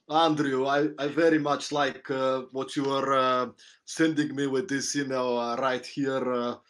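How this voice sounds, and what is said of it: Put-on Eastern European accent. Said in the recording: “I could not do a Eastern European accent... can you do that one for me?”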